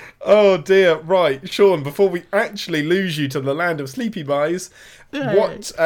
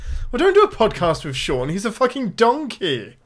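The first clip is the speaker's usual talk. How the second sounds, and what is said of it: Put-on Welsh accent. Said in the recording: “describe somebody as a donkey in a Welsh accent”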